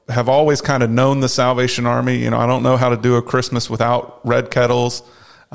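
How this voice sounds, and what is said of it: Slight North Carolina Southern accent. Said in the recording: “if you hear a little bit of that Tar Heel accent coming through”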